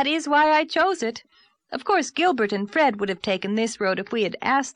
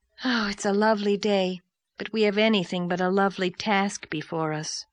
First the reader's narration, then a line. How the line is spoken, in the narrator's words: sighed Diana